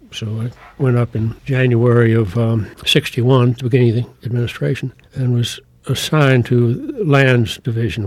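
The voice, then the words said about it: Southern American accent. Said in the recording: “I was Southern and had a Southern accent”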